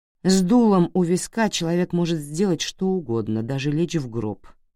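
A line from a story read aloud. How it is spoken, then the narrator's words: Plain. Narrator (Russian): ответила Блю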